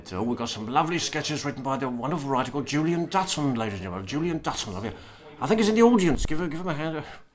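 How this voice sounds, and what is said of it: Poor Roy Hudd impression. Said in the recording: “It's a terrible impression, sorry, but I'm trying to do Roy Hudd. I'm doing Roy Hudd”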